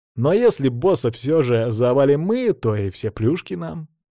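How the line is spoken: Snide addition. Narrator (Russian): ехидно добавил Кайл

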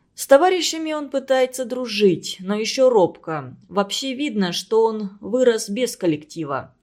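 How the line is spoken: Plain. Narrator (Russian): ответил Кирилл Петрович

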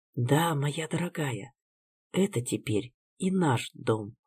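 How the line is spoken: Whisper. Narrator (Russian): прошептала я

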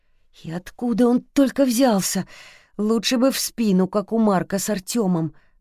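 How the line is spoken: Muttering. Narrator (Russian): бормотал Ждан

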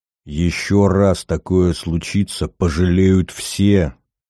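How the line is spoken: Through gritted teeth. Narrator (Russian): процедил Глеб

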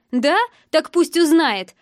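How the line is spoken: Loud. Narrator (Russian): громко произнес

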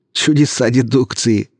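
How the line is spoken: Laughing young man. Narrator (Russian): рассмеялся парень

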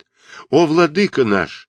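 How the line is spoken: Exclaimed in chorus. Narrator (Russian): воскликнули хором сановники

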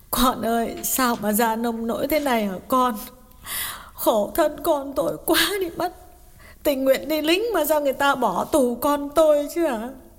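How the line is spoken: Mother asking, sobbing. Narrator (Vietnamese): Bà mẹ mếu máo hỏi

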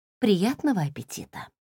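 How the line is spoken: Quiet mutter. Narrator (Russian): тихо пробормотала

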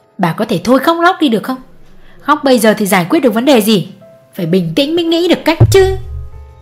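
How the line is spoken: Snapping irritably. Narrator (Vietnamese): Ông gắt

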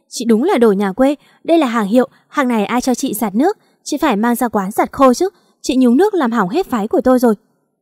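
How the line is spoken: Shouting. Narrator (Vietnamese): Thư hét lên

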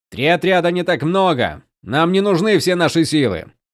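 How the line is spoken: Shouting to others. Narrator (Russian): крикнул Каладин остальным

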